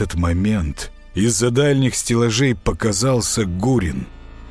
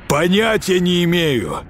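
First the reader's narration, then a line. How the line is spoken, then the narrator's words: Shouting. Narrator (Russian): выкрикнул Гурин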